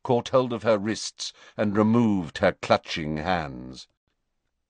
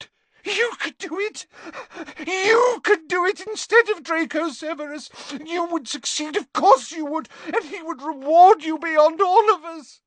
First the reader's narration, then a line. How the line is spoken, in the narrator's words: her tears falling onto his chest, she gasped